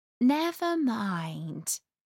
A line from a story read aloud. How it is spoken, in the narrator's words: Alice said in a soothing tone